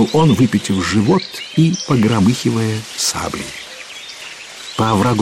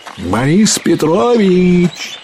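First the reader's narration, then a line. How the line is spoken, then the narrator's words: Shouted again. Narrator (Russian): крикнул он опять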